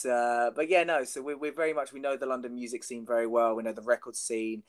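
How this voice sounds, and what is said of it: London accent. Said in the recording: “we're both Londoners, as they can probably tell from our accents. And the way we say the word accent as well is probably a giveaway”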